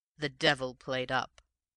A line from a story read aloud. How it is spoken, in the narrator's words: continued Raffles with a laugh